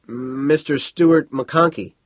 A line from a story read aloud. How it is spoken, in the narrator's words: the Fouquet stammered